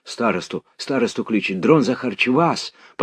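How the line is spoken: Hurried submissive voices. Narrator (Russian): послышались кое-где торопливо покорные голоса

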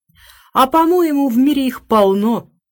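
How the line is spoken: Exclaiming. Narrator (Russian): воскликнула Хелен

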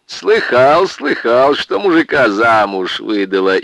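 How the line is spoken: Guffawing. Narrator (Russian): И захохотал

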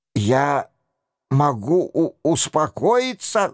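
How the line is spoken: Stammering prince. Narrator (Russian): заикался принц

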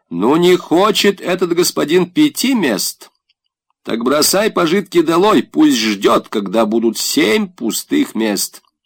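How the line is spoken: Insolent crushed military voice. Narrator (Russian): Голова дерзким, раздавленным, русско-немецко военным голосом сказала

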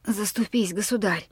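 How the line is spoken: Hoarse old man. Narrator (Russian): Старик сиплым голосом произнес

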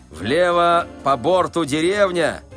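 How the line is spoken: Shouted. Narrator (Russian): крикнул Балаганов

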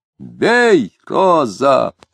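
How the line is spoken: Strained shout. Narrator (Russian): с натугой кричал Дронов, согнувшись

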